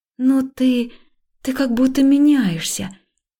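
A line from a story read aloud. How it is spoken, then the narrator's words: Hesitant, uncertain. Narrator (Russian): Я попыталась объяснить, но слова звучали неуверенно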